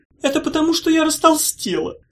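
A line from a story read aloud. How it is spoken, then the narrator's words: Sobbing. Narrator (Russian): сказала она, всхлипывая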